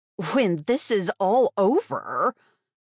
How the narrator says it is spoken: Her laughter was a mad witch's cackle

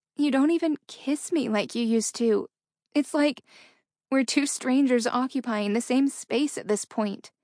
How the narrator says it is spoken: hurt said in a pained voice

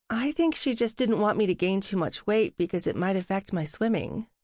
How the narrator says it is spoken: Lydia said

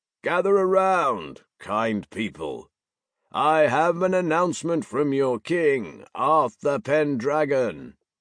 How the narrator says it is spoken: he called out in a booming voice

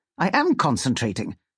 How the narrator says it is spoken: says rather indignantly

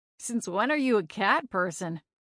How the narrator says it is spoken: Roger asked me

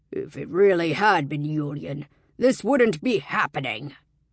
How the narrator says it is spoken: Vatsek snarled

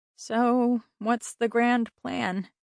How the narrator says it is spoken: She asked wearily

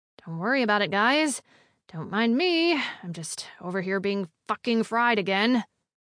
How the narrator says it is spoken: Emily grimaced, cleared her throat, and muttered

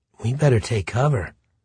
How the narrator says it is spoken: Brooke whispered

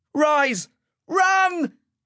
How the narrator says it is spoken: Ash yelled at the top of his voice

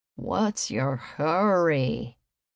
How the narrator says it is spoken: Hank groaned

